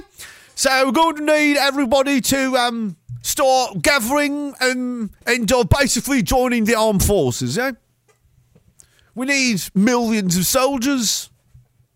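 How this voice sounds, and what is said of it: Put-on, shifting British regional accents. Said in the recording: “My accent is just progressively changing to be all over the United Kingdom. I have no control over this.”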